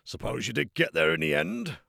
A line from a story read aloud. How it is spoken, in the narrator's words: Mikey grunted